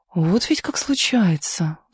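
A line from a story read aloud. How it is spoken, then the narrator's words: Sighing. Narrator (Russian): вздохнула Лидочка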